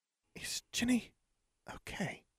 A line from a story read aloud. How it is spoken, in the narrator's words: Hermione whispered